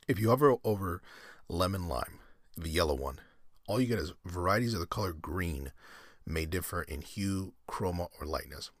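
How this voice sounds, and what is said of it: Hoarse, strained voice. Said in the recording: “I'm like losing my voice”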